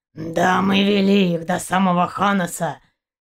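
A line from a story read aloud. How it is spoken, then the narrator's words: Hoarse bass voice. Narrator (Russian): донесся до ее слуха хриплый бас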